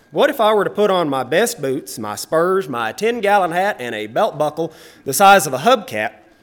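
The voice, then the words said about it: Texan accent. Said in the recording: “I have a Texan accent. ... no matter how hard I try to sound proper and articulate, I still sound like a 19th century uneducated cowboy”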